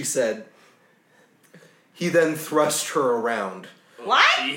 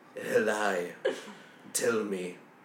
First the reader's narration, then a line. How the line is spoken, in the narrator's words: he said, looking into her eyes menacingly